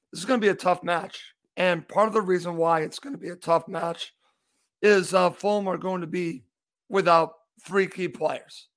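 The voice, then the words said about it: Slightly hoarse voice. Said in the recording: “I am a little hoarse, so you might hear this in my voice.”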